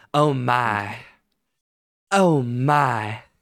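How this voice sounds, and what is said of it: Southern belle character voice. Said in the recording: “like a southern belle”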